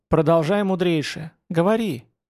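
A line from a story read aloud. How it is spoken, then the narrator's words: Young woman, gentle permission. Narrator (Russian): ласково разрешила девушка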